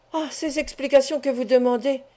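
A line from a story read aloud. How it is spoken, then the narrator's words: Exclaiming. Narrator (French): s'écria Fourcy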